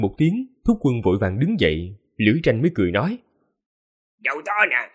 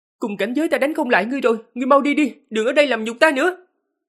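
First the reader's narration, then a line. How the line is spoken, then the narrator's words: Embarrassed angry shout. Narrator (Vietnamese): Yên Vân Hề vừa thẹn thùng vừa tức giận quát lên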